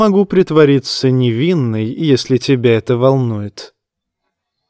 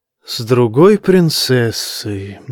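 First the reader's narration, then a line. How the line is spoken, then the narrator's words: Sighing. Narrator (Russian): вздохнула она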